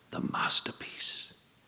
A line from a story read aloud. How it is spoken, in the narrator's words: hissed, not quietly enough